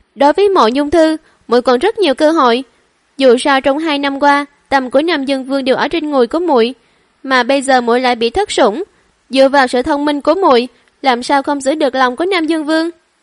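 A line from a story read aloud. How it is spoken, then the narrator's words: Cold scolding. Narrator (Vietnamese): Thẩm Quý Phi lạnh lùng quát Thẩm Trắc Phi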